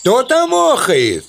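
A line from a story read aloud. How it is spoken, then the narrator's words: Shout into pit. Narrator (Russian): Крикнул в яму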